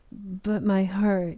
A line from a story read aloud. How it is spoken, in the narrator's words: he stammered